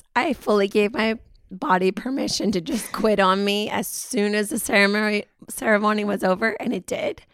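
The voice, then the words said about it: Hoarse, husky low voice. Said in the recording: “I've lost my voice. ... this bluesy jazz voice ... It gives us a sultry element”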